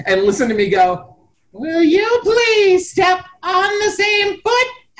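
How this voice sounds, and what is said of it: Imitates another person's voice. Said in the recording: “I did a killer impression of Madeline Kahn”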